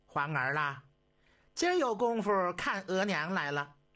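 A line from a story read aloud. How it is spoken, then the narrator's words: Excited, laughing call. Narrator (Chinese): 慈禧太后这心里正烦呢，好几天没瞧见自己儿子了，今儿一瞅见皇上啊，哎呦，一时间感觉到心情都有点激动了，连忙笑着叫了一句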